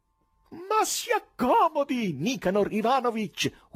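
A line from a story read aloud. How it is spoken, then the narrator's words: Unembarrassed shouting. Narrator (Italian): urlava quello, senza il minimo imbarazzo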